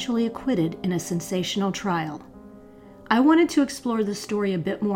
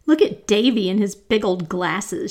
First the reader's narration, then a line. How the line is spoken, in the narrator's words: she'd giggled